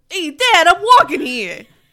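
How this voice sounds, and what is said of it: Put-on New York accent. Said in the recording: “what's like a Long Island accent? ... That's the only thing I can say when I think about New York.”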